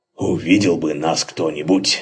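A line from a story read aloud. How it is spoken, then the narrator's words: Contented grumble, lip-smacking. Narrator (Russian): с удовольствием причмокивая, проворчал Максимилиан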